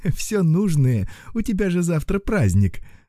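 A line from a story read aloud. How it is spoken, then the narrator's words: Laughing. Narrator (Russian): засмеялась мама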